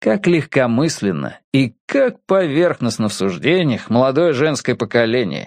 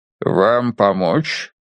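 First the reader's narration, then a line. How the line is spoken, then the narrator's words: Deep growling polite voice. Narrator (Russian): Глубокий грудной голос, чем-то напоминающий рычание, как ни странно, звучал вежливо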